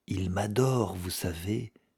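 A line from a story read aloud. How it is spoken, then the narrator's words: Murmured. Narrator (French): murmura-t-elle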